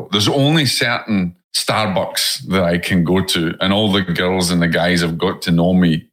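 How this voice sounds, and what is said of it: Scottish accent. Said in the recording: “they don't get my Scottish accent”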